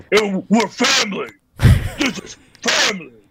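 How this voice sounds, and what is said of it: Imitates another person's voice. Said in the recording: “Is that your Vin Diesel impression?”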